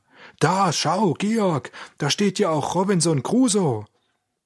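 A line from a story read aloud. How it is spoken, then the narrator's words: Sudden call. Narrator (German): Auf einmal rief er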